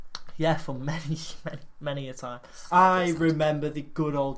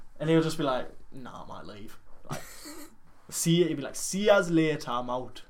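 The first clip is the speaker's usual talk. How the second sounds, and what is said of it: Attempted Newcastle Geordie accent. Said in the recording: “What was that accent? ... It wasn't really Newcastle.”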